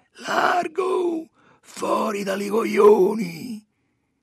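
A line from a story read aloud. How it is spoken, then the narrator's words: Nasal rasping shout. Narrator (Italian): Il Capoccia, un guappo napoletano da una quarantina d'anni, parlando con una voce cancherosa che gli usciva dalle froci del naso, urlava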